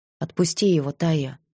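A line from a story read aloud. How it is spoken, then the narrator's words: Quiet plea. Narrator (Russian): попросила тихо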